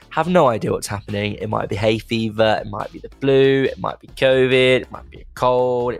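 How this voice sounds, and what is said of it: Congested, ill-sounding voice. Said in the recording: “I've been a little bit ill recently, as you can probably tell in my voice... all the sinuses and they're all blocked”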